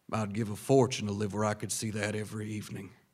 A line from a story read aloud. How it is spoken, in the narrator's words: he said in a deep velvet tone